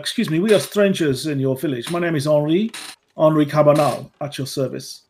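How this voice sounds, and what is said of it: Put-on French accent. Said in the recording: “your accent, you don't sound like you're from round here ... I am from France”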